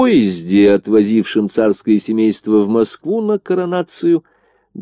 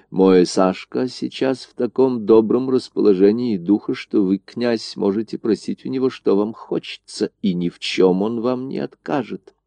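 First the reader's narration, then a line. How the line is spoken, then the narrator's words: Quiet speech. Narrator (Russian): тихонько сказала Горчакову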